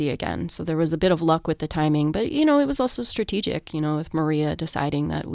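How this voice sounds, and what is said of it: Usual voice. Nothing is said of it.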